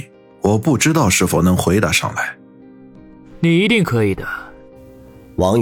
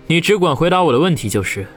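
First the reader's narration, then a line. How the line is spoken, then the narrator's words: Faint, calm smile. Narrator (Chinese): 王宇淡淡一笑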